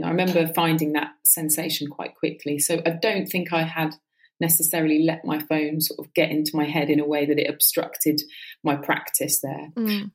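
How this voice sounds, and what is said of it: West Country English accent. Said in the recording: “lovely to hear some West Country accent”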